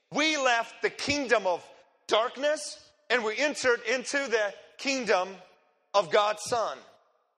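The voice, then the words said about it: Noticeable foreign accent. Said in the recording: “everybody asking me where I'm from because of my accent”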